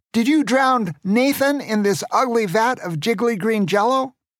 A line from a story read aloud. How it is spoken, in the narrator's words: Grandpa shouted at Pierre Grande